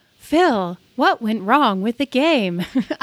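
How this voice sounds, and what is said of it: Creepy robot voice. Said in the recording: “I have a pretty good robot voice ... creepy ... Creepy”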